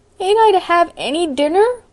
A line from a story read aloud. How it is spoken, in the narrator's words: wailed Davy